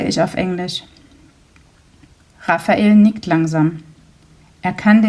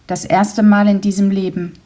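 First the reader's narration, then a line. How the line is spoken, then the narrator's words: Plain. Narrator (German): sagt er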